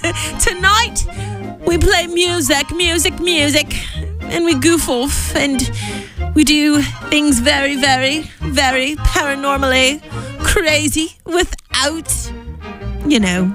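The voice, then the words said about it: Put-on English accent. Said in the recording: “Why do I all of a sudden have a English accent?”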